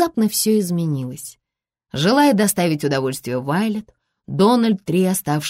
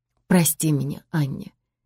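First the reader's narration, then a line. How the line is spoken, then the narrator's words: Barely audible whisper. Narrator (Russian): чуть слышно прошептал он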